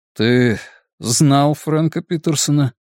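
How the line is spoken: Joyless laugh. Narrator (Russian): Терри невесело рассмеялся

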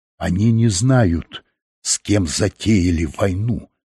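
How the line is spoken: Quiet malicious whisper. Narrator (Russian): злобно и тихо прошептал епископ

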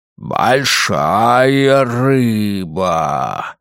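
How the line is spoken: Low greedy exclamation. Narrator (Russian): низким жадным голосом воскликнул мужчина в черном костюме

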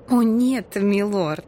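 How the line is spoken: Embarrassed giggle. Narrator (Russian): Лия смущенно хихикнула

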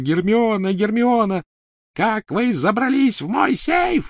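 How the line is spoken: Shrieking. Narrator (Russian): визжала Беллатриса

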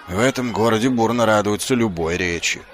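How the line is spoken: Grumbling. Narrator (Russian): проворчал Ваймс

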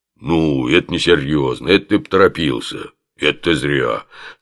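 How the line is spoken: Sympathetic low boom. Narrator (Russian): сочувственно прогудел Оболенский

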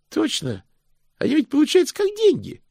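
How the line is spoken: Brisk, cheerful chiming in. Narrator (Russian): бодро подхватил Стэнли

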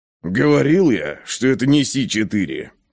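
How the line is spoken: Muttering under breath. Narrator (Russian): пробурчал себе под нос Ковальски

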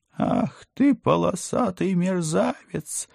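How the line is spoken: Furious falsetto howl, old man. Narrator (Russian): яростным фальцетом взвыл отставной полковник

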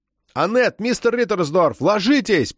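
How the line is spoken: Shouting. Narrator (Russian): прокричал Габриэль

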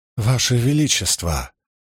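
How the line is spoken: Trembling voice. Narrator (Russian): дрожащим голосом начал Куртин Эссандриан

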